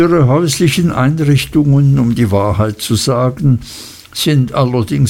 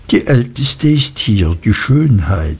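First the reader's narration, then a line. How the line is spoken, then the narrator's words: Soft, confidential. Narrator (German): sagte Traddles leise und vertraulich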